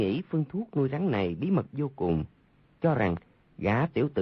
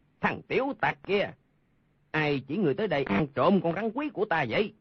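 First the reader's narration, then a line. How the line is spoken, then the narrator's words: Angry shout. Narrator (Vietnamese): Lương Tử Ông tức giận quát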